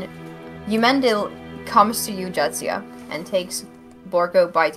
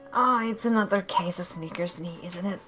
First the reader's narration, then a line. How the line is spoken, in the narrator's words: he mutters, and he mutters